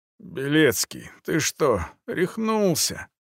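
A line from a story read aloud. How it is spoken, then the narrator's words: Groaning. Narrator (Russian): простонал он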